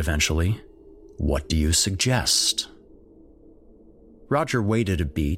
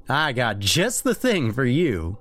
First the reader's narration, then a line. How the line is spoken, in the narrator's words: he said with a hint of a laugh